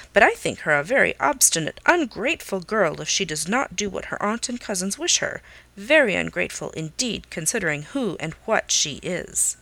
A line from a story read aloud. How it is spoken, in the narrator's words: Norris sharply